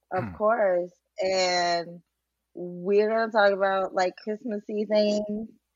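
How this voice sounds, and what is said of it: Unusual, groggy-sounding voice. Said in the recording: “You sound like really different. You sound like a drunk substitute teacher.”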